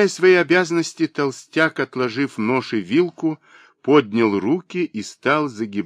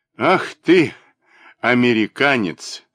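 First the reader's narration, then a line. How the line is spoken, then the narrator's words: Laughing. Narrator (Russian): рассмеявшись, проговорил племянник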